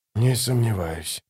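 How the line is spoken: Whisper. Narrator (Russian): прошептал он

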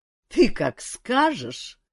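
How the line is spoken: King laughing. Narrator (Russian): засмеялся король

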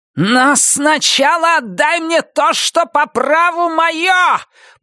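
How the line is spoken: Piercing inhuman scream. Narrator (Russian): пронзительно завопила Роза Морена совершенно нечеловеческим голосом

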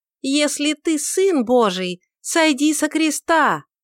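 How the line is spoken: Mocking cupped-hand shout. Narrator (Russian): слегка заслоняя рот обеими руками, чтобы ее голос дальше раздался, она насмешливо закричала

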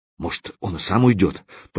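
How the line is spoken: Muttered. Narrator (Russian): пробормотал поршень

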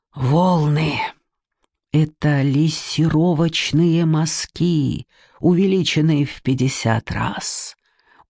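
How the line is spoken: Satisfied whisper. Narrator (Russian): удовлетворенно шепнул Алуев

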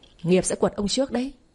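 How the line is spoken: Angry shout. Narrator (Vietnamese): Ngọc quát lớn

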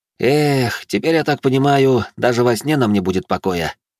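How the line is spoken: Resigned sigh. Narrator (Russian): обреченно вздохнул Алекс

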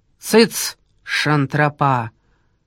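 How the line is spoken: Commanding authoritative tone. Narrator (Russian): вмешался кто-то властным тоном командира

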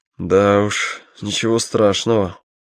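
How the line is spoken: Forced through clenched teeth. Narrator (Russian): не разжимая зубы, выдавил из себя Боря

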